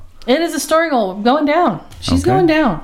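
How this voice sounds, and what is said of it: Yelling loudly. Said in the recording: “Why am I yelling?... I start yelling at everyone.”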